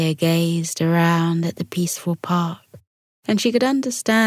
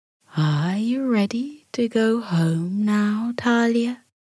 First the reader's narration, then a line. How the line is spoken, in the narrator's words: Bella purred